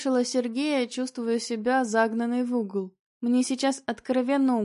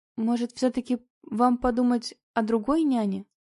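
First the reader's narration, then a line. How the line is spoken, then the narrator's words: Timid suggestion. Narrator (Russian): Робко предложила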